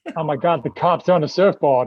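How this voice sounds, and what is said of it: Poor attempt at Australian accent. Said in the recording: “I turn into an American. That's probably my best Australian accent. ... I can't even do an Australian accent. ... Yeah, that's not good.”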